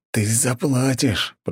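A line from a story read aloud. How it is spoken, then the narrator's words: Hissed. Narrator (Russian): прошипел он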